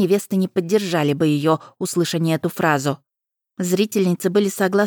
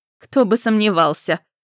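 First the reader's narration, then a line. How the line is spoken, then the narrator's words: Snorting. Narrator (Russian): хмыкнула Хель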